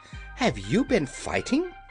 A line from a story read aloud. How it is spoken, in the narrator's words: cried Dorothy in a shocked voice